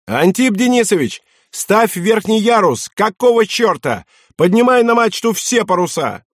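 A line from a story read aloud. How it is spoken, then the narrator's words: Shouted. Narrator (Russian): Тогда штурман крикнул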